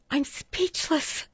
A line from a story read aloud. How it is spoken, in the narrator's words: Miss Stinson whispered as she put her hand over her mouth